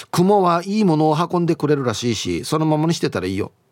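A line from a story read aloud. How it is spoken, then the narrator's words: Plain. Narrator (Japanese): と言っていた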